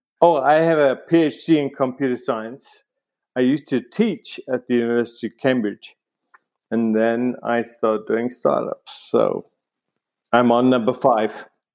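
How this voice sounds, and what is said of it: South African accent, not British. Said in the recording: “your accent doesn't sound British... I grew up in South Africa.”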